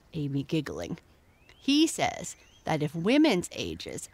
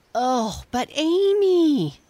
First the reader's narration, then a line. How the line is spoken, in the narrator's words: cried Jessie